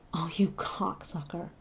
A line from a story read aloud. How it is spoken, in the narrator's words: Heart pounding and teeth gritted, Duck kept jerking the old guy until he groaned out